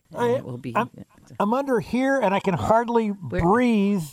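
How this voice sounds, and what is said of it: Silly character voice. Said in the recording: “Is that a good imitation? ... I'm pretending to be the butter on the toast.”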